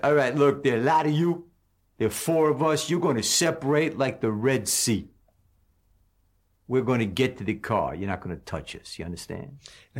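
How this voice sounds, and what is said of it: Cool tough-guy character voice. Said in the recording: “now he's going into the Fonzie voice ... he's doing the Fonzie voice ... the difference in the voice and how much it really was a character ... he was doing a phony voice”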